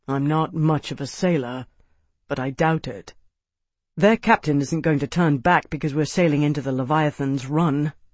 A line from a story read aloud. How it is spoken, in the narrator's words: Tavi said grimly